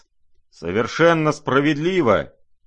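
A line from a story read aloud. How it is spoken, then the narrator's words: Sudden distant booming. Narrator (Russian): прогремел вдруг из глубины комнаты генерал Иволгин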